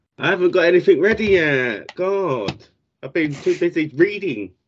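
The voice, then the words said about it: Imitates another person's voice. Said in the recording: “Good Liam impression ... I've got more bass in my voice”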